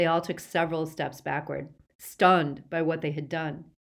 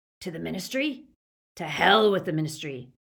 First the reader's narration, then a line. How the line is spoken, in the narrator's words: growled Greyback